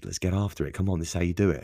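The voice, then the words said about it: Put-on American accent. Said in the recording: “I don't know why I do the American accent. I apologize to my American listeners.”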